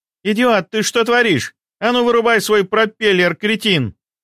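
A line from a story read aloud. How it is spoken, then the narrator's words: Angry shout. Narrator (Russian): Разгневанно закричала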